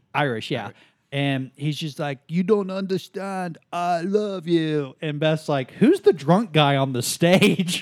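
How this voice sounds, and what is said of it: Accent resembling Rocky Balboa. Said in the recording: “Your accent sounds a little like Rocky Balboa.”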